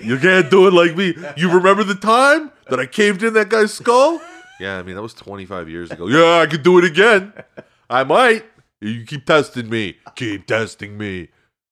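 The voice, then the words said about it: Put-on New York accent. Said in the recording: “Why do you have a New York accent?”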